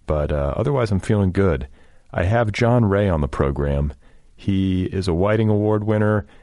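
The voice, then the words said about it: Congested voice with a cold. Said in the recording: “I have a bit of a cold. I don't know if you can hear it in my voice. I'm a bit congested.”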